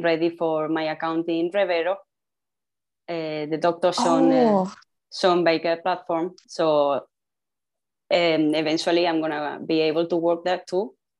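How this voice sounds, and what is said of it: Non-native accented English. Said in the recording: “You have a beautiful accent.”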